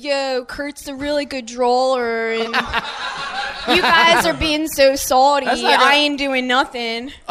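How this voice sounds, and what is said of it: Exaggerated South Philly accent. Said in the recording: “my Philly accent for Philly girl ... that's like a South Philly ... You're not good at it”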